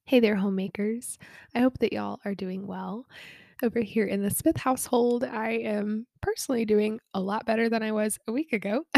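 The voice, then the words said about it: Nasal, congested voice. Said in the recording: “I sound a little nasally ... it is because I have some remaining congestion”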